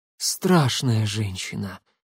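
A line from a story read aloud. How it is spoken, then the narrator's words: Breathy exhale. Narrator (Russian): выдохнула Роксолана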